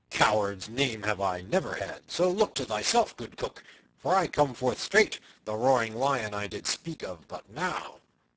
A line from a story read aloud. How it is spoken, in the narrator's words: cried Little John